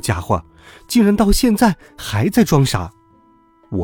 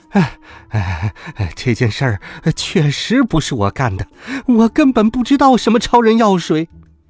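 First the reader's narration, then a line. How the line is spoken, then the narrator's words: Dizzy, breathless. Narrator (Chinese): 地中海教授被陈静一转得头晕目眩，他气喘吁吁地说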